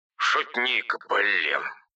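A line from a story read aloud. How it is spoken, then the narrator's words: Grumbling. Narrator (Russian): проворчал Бен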